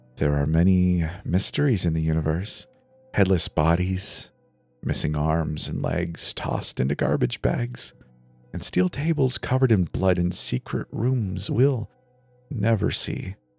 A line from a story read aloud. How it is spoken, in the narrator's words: He started whispering